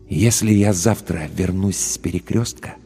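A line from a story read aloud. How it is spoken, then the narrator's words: Very quiet, distinct whisper. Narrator (Russian): прошептал он очень тихо, но очень отчетливо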